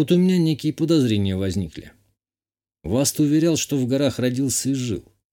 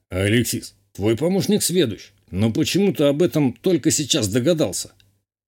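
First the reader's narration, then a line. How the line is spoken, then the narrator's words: Snorting remark. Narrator (Russian): хмыкнул горец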